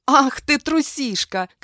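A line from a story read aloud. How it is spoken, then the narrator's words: Shouting. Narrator (Russian): кричала я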